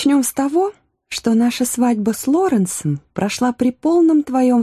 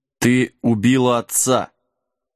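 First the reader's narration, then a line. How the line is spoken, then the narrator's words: Hollow, muffled. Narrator (Russian): глухо произнес Джек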